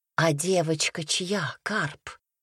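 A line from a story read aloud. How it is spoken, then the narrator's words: Quiet question. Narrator (Russian): тихо спросила матушка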